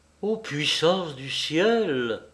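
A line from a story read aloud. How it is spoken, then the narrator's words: Exclaimed. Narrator (French): s'écria Xavier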